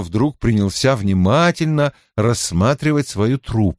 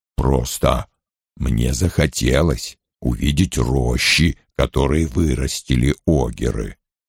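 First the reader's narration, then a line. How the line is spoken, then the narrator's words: Muttering. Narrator (Russian): пробормотал он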